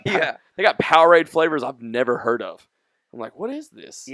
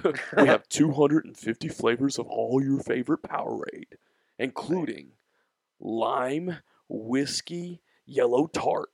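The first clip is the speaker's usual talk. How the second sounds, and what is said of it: Announcer-style radio voice. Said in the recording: “Was that your radio voice?”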